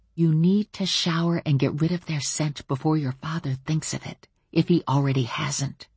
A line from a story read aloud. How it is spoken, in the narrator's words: Then I whispered very, very quietly